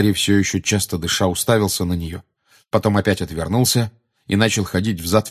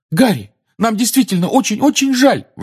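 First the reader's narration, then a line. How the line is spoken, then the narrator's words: Desperate exclamation. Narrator (Russian): в отчаянии воскликнула Гермиона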